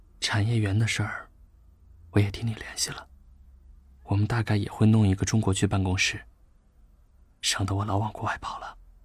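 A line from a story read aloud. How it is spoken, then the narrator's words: Soft voice. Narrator (Chinese): 魏志远轻声说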